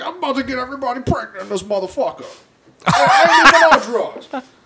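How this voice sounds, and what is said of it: Imitates another person's voice. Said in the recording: “my impression of Tracy Morgan”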